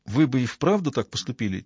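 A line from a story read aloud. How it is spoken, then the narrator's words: Quiet question. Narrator (Russian): тихо спросила Джозефина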